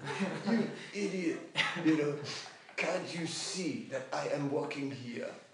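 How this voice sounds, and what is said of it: Put-on French accent. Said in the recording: “with a sweet French accent ... the French, they have a way of saying things, you know, where it's got more sting”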